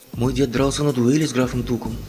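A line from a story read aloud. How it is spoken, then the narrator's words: Plain. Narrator (Russian): сказал Том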